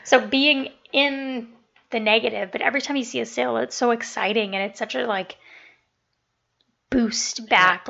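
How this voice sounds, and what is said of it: Hoarse, losing her voice. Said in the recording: “I don't know what's going on with my voice. I'm losing my voice.”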